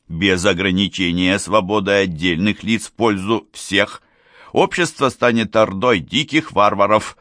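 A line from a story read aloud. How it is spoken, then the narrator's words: Loud voice. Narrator (Russian): сказал Толен громким голосом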